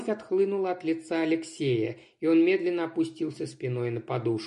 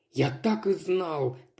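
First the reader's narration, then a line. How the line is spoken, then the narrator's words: Mutter. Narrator (Russian): Пробормотал он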